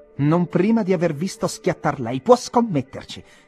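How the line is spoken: Exasperated shout, nearly laughing. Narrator (Italian): gridò esasperato ma ancora pronto a riderci su

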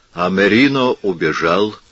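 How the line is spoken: Sad. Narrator (Russian): грустно сказал Серано

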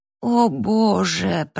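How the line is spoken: Groan. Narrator (Russian): простонал

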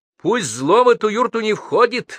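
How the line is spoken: Hare shouting. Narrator (Russian): выкрикнул по-русски заяц

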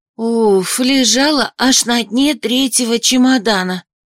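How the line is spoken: Proud relieved exhale. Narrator (Russian): Выдохнула девушка, гордая, что таки выполнила распоряжение хозяйки

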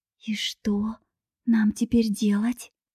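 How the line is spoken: Dazed young woman whispering. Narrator (Russian): прошептала девушка, постепенно приходя в себя

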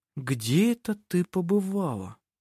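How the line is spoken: Slow, female voice. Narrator (Russian): медленно произнесла она

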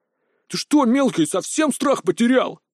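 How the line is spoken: Through gritted teeth. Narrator (Russian): процедил Айрт

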